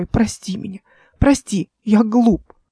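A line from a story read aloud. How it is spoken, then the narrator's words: Sobbing girl. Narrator (Russian): Девушка спрятала лицо и зарыдала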